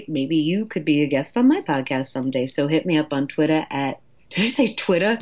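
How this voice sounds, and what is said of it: New York accent. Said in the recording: “Sometimes my New York accent really comes out in unexpected ways.”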